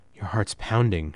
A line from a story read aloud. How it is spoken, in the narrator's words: said quietly